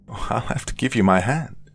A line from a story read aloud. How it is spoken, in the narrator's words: she laughed